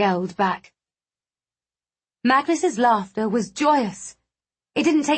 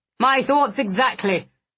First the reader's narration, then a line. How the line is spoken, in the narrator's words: Blackwood snapped